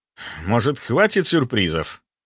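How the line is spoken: Irritated. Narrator (Russian): Скорее раздраженно, чем удивленно, произнес я

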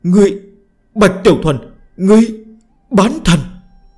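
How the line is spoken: Shrill terrified scream. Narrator (Vietnamese): mang theo khủng hoảng mãnh liệt đến cực hạn, khiếp sợ vô cùng, thất thành hét lên chói tai

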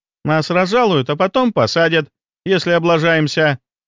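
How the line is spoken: Cheerful. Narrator (Russian): весело произнесла Аленка

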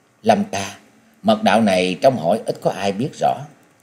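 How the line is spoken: Sudden soft speech. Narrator (Vietnamese): Bỗng nàng lên tiếng nói khẽ

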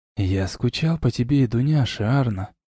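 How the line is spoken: Whispered. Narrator (Russian): прошептал я

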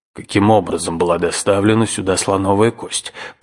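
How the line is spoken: Irritated grumble, uncle. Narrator (Russian): пробурчал дядя, очень раздраженный

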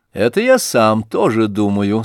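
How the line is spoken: Said, then laughed. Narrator (Russian): сказал князь Ща и засмеялся

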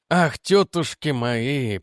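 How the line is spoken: Groaning. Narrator (Russian): простонал он

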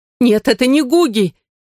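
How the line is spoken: Frightened cry. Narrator (Russian): испуганно вскрикнула Нина

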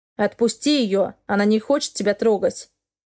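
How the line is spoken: Growling. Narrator (Russian): Продолжал рычать Леонард

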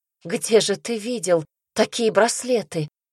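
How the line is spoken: Timid babble. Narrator (Russian): пролепетала я

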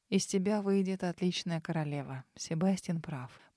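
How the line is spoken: Quiet. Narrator (Russian): произнес он негромко

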